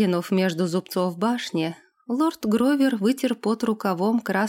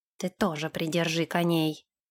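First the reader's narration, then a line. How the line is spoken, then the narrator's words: Gruff mutter. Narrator (Russian): буркнул Нэш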